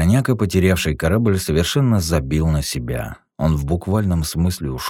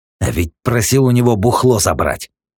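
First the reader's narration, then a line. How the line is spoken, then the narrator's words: Growled. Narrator (Russian): Прорычал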